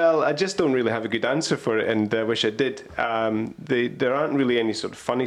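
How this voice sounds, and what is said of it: Usual voice. Nothing is said of it.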